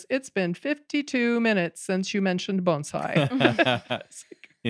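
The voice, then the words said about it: Dry imitated British accent. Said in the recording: “In his British accent? ... Yes, in his British accent. Very dry, very dry.”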